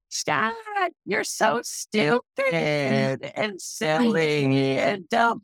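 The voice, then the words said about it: Absurd silly inner-critic voice. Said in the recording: “Give that voice an actual voice and make it the most absurd voice you've ever heard in your life ... this is my inner critic's voice now”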